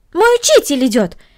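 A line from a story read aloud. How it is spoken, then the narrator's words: Exclaimed. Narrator (Russian): воскликнула Корнели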